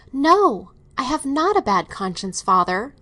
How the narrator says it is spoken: the girl cried out with considerable energy

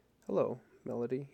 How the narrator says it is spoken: he said quietly

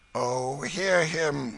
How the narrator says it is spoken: groaned Hugo

